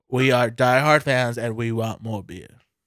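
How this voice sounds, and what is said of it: Switches into a put-on accent. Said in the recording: “changed my accent there at the end”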